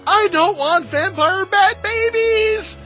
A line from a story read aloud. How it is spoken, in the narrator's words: Toaster just screamed out